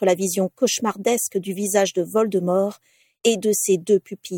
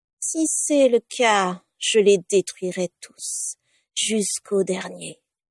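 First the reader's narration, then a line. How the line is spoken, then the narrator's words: Plain. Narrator (French): avait-il dit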